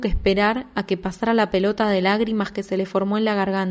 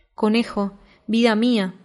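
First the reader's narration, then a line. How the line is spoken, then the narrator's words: Sigh. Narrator (Spanish): suspiró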